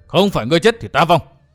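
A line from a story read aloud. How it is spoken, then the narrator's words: Old man roaring. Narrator (Vietnamese): lão bỗng gầm lên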